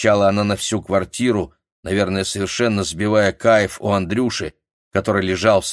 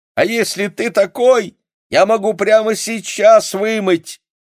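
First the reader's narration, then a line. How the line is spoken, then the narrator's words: Shouted. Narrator (Russian): закричала она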